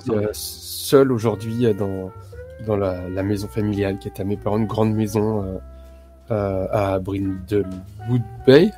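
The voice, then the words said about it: Put-on American accent in French. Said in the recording (French): “vous avez vu mon accent américain C'est incroyable.”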